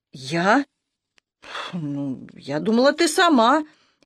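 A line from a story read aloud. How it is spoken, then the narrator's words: Frightened. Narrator (Russian): испуганно отшатнулась Танька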